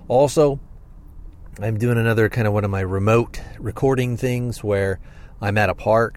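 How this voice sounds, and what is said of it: Stuffy, congested voice. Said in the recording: “my voice sounds a little stuffy ... still kind of stuffy and kind of sound a little off”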